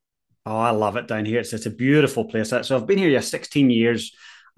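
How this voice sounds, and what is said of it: Northern Irish accent with Kiwi tinge. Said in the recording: “accent isn't from Christchurch ... Christchurch people think I sound very Irish, and my Northern Irish family think I sound very Kiwi”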